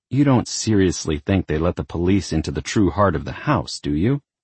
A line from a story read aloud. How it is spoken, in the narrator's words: Isabel muttered